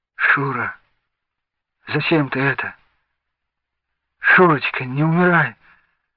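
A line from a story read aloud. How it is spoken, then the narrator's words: Wailing and dry-lipped whisper. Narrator (Russian): Жорка завыл, а Венька только шептал пересохшими губами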